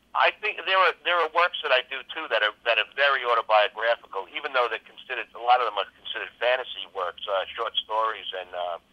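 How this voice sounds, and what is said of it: Long Island accent. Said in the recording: “this voice I'm speaking to in my Long Island accent”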